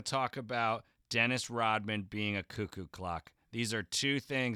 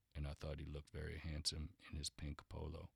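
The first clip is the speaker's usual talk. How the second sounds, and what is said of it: Low, low-energy impersonation of a man. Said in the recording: “this is my impersonation of Scottie Pippen. He's very low talker. He's really low register. He's very low energy... But you're talking too quickly.”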